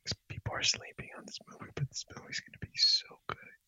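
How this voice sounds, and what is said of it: Whispering. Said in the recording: “I have to whisper ... Why am I whispering?”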